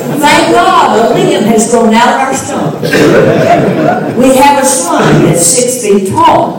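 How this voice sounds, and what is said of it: Kentucky accent. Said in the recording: “You can tell I have an accent. Yeah. It's a Kentucky accent.”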